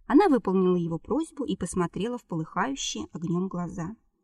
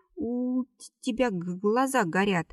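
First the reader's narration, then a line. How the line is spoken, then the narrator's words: Stammering. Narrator (Russian): проговорила, заикаясь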